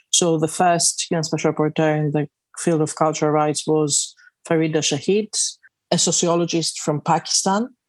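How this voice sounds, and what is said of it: Greek accent with British influence. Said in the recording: “I'm Greek, but have been living in the UK for the past 25 years. ... I can hear a little bit of both those things in your accent”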